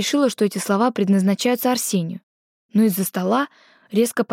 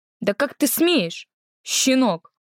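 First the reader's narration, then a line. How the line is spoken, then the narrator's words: Indignant booming. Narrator (Russian): Леука-старший возмущенно прогремел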